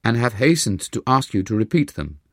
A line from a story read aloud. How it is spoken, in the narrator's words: they cried